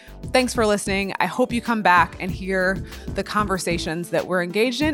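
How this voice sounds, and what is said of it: Excited, enthusiastic voice. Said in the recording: “You can probably hear the excitement in my voice.”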